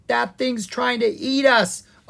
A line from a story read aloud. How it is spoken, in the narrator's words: Owen shouted